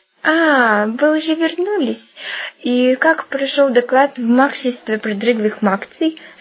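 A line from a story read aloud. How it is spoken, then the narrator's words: Strained, forced out. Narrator (Russian): с усилием выдавил он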